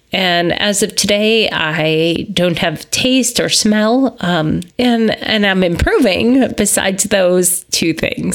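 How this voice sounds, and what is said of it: Sounds sick. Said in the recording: “As you can probably tell from my voice, I am sick.”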